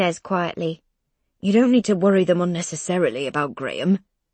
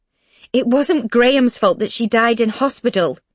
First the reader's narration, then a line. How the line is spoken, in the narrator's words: Mum says, raising her voice a little